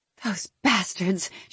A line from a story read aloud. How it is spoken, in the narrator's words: she hissed